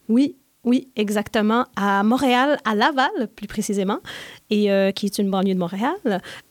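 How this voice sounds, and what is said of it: Slight Québécois French accent. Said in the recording (French): “On sent un petit accent. ... Moi, je viens du Québec, de Montréal.”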